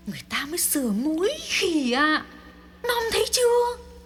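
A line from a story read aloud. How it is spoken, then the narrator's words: Soft hiss. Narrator (Vietnamese): Thắm rít lên nho nhỏ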